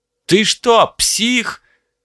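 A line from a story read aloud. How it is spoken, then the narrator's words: Driver yelling. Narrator (Russian): заорал водитель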